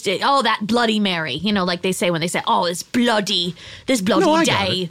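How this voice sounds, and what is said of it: Good put-on British accent. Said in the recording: “Unless he was British ... it's just a fun accent to do ... you're very good at it”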